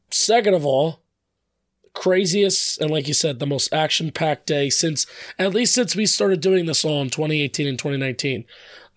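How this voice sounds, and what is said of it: Strained, worn-out voice. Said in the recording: “sorry about my voice. I'm screwed up.”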